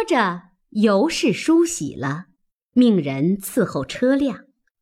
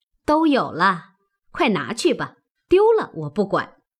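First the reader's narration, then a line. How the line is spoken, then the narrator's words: Laughing. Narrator (Chinese): 凤姐笑道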